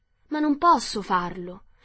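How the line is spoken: Very surprised exclamation. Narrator (Italian): esclamò Dorothy assai sorpresa

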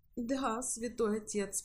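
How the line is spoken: Sobbing. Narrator (Russian): прорыдала Ева

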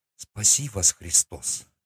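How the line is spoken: Quiet. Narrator (Russian): тихо сказала она

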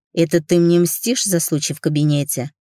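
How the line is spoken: Growled. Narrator (Russian): прорычал я

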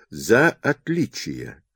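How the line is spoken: Drawn-out drawl. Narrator (Russian): протянула Рита

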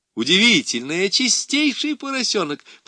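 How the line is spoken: Loud laughing. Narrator (Russian): подхватил я, захохотав во все горло

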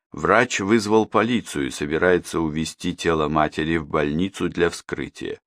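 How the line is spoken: Gloomy explanation. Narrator (Russian): мрачно пояснил тот

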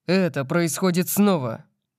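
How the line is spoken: Growling. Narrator (Russian): прорычал я

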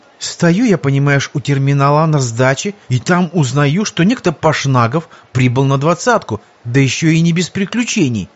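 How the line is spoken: Indignant young woman. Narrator (Russian): возмущенно продолжала девушка

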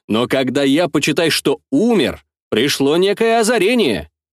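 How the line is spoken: Plain. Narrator (Russian): сказал я

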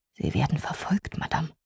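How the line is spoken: Whispered. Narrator (German): ganz nah auf mich zutrat und mir zuflüsterte

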